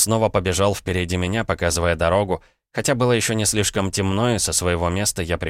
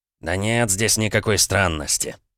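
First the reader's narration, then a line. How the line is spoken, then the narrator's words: Annoyed grunt, village elder. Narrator (Russian): раздосадованно хмыкнул староста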